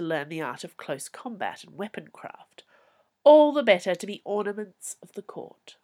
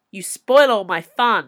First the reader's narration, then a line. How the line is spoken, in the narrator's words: yelled back